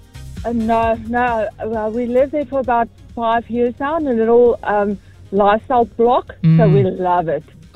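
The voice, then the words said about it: Strong South African accent. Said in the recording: “quite a strong South African accent ... still very strong”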